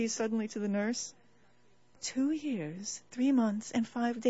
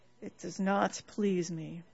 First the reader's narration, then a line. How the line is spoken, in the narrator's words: said the king with a sigh